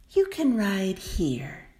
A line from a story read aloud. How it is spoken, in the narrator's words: she said kindly